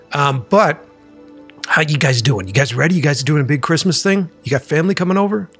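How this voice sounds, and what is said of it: Slightly rough, rocky voice. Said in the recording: “my voice is a little rocky today”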